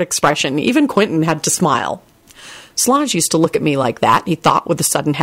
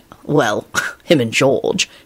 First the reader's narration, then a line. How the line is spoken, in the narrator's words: he muttered